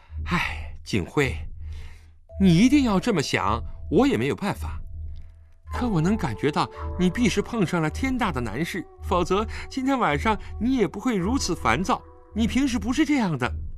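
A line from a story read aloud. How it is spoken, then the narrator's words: Sighing. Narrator (Chinese): 陈秋月叹了口气道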